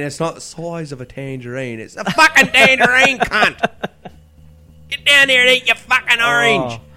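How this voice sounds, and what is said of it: Put-on hard working-class Cockney accent. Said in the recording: “hard fucking working class fucking ochre accent ... such a Cockney fucking tone”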